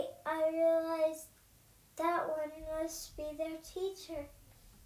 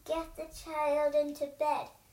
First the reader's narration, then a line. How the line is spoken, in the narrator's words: The purple monster grumbled